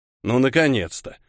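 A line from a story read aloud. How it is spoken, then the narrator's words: Grumbling. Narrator (Russian): пробурчал Шрам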